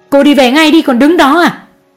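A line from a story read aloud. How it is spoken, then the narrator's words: Shout. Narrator (Vietnamese): Mẹ chú Đại hét lên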